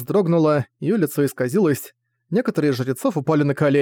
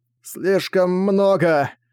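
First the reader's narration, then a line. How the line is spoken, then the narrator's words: Exhaled. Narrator (Russian): выдохнул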